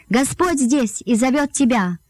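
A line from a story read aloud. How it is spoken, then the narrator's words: Shout. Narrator (Russian): она крикнула Марии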